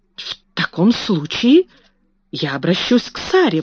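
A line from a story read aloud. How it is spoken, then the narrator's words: Exclaiming. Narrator (Russian): воскликнула мисс Минчин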